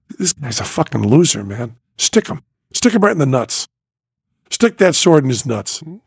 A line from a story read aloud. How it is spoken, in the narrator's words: quietly, and I said